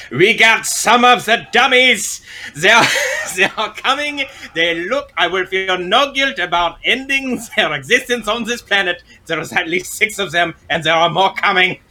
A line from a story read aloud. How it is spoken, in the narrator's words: I'll shout over my shoulder